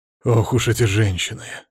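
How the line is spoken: Sighing mentor. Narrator (Russian): вздохнул наставник

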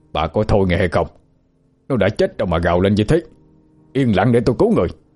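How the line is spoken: Shouting. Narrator (Vietnamese): Lão bản phải quát lên

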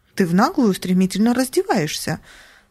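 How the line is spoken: Exclaiming. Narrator (Russian): воскликнула

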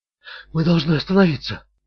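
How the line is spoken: Whispered. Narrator (Russian): прошептала она

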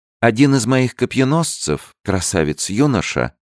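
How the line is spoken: Calm, queen. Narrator (Russian): спокойно продолжала королева

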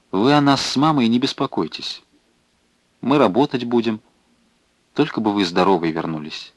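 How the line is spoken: Quiet reply. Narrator (Russian): Она тихо ответила ему

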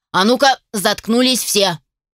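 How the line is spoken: Captain barking. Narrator (Russian): гаркнул капитан

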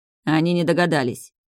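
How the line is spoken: Cold, through gritted teeth. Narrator (Russian): скрипнув зубами, холодно опроверг Стейс

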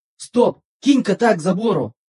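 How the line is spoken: Yelling inside one's head. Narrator (Russian): завопил Один в моей голове

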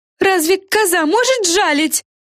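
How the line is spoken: Witches shouting. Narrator (Russian): кричали ведьмы феям

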